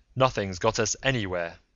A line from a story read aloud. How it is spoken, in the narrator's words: Anderson interjected harshly